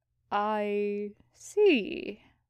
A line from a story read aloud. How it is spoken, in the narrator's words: he slowly said, to buy himself some time